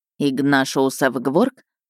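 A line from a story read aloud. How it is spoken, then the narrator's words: Snorting. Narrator (Russian): фыркнул он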